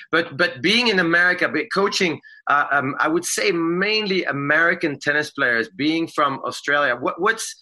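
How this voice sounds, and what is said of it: Slight non-American accent. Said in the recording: “you and I have a slight accent. Some people sometimes think I am half Australian”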